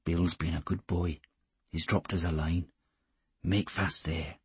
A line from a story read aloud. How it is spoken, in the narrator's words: he said, always in that low murmur that was so much more effective than a whisper